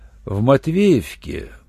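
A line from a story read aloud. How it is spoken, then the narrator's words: Drawling. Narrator (Russian): протянул Руальд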